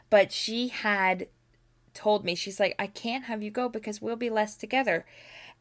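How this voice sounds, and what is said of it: Cracking, tearful voice. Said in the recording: “my voice is cracking because I'm tearing up a little bit”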